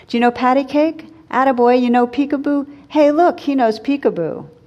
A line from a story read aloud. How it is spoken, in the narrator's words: the old bum was shouting from across the room